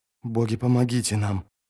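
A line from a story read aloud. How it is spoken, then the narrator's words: Whisper. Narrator (Russian): прошептал Анкарн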